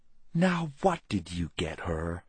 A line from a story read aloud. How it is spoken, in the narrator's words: Missy whispered conspiratorially to her brother